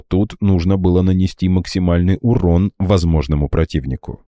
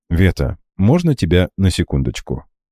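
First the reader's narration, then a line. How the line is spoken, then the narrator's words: Low voice. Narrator (Russian): негромко произнес я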